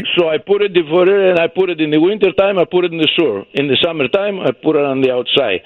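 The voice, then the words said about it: Greek accent. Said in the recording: “I can tell by your accent you're not Italian ... No, I'm Greek.”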